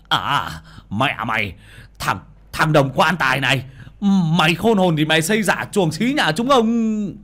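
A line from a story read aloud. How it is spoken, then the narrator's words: Fierce hissing. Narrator (Vietnamese): hung hăng rít lên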